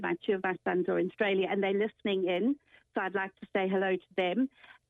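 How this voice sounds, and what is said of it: Speaks with a distinct regional accent. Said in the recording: “I just love your accent”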